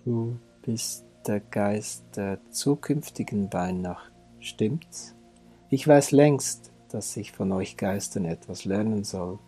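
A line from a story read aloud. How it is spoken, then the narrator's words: Plain. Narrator (German): sagte Scrooge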